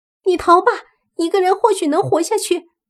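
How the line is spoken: Desperate determined shout. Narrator (Chinese): 他咬了咬牙，同时大喊

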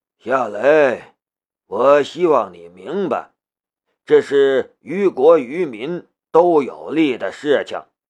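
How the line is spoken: Sighing. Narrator (Chinese): 穆剑锋叹了一口气

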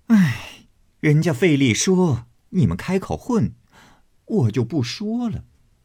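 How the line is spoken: Laughing, clapping. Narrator (Chinese): 凤姐儿起身拍手笑道

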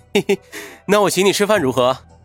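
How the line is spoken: Cheerful chuckling. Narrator (Chinese): 云峰笑嘻嘻的说道

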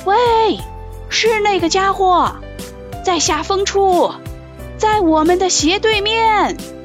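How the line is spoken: Shouting. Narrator (Chinese): 那是内德兰德在喊

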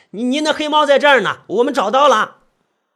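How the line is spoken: Shout. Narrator (Chinese): 我就喊道

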